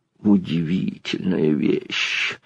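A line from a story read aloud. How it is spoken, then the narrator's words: Pleased whisper. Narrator (Russian): прошептал Байдаров, даже зажмурясь от удовольствия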